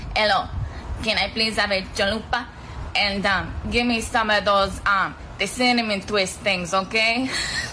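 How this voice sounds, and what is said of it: Put-on Mexican accent. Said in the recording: “with a Mexican accent, so it's more authentico”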